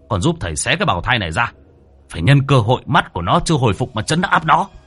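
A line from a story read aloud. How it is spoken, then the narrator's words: Urgent shout. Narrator (Vietnamese): Sư hét lên với Huệ Thông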